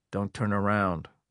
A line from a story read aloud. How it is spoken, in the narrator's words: was the whisper